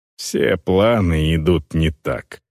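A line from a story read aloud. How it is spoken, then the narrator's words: Orc woman's grumble. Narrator (Russian): проворчала орка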